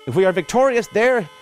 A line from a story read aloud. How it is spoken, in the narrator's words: shouted